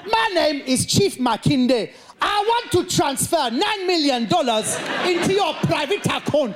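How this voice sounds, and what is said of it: Put-on Nigerian accent. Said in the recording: “learn a Nigerian accent, it's very simple”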